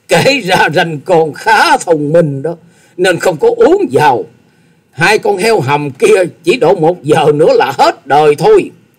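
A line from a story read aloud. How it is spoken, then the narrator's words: Loud laugh. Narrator (Vietnamese): Tư Đồ Hạnh cười to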